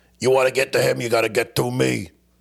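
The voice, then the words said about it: Imitates another person's voice. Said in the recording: “my best Joey Diaz impression.”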